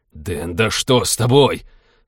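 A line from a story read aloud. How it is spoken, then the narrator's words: Snapping, outburst. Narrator (Russian): Сорвался пилот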